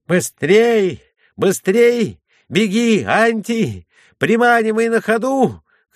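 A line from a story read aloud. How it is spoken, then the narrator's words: Excited shouting. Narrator (Russian): кричал Юси с волнением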